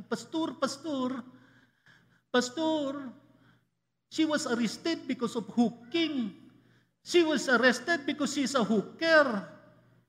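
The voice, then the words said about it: Imitated accent of a church member. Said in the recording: “I'm sorry to use her accent at this point.”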